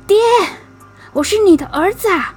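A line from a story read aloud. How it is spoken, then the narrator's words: Desperate cry. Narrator (Chinese): 鬼豆忍不住 喊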